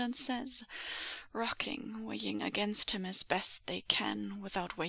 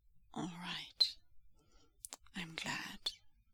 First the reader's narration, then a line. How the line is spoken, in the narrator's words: whispers Lanzhan into the crown of his hair